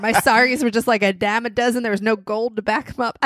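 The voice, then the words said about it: Put-on hillbilly accent. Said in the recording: “I don't know what this accent is. Hillbilly who has something against America.”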